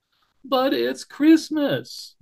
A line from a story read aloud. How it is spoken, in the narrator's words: moaned Barrington